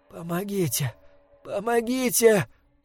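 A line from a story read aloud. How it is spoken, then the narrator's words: Groan. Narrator (Russian): простонала Эмма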